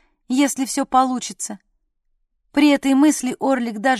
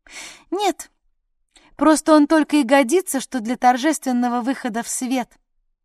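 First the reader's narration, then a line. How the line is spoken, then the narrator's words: Forced cheerfulness. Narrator (Russian): нарочито веселым голосом пояснила Сарна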